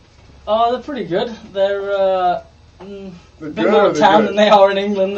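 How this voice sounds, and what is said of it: English speaker with Australian-tinged accent. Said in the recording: “is that why he picked up that shitty accent?”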